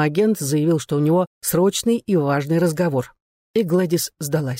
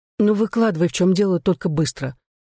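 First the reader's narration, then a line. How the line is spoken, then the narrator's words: Sighing. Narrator (Russian): вздохнула она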